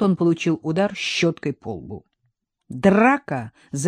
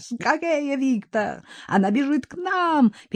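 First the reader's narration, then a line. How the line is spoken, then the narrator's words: Terrified yell. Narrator (Russian): перепуганно завопил инженер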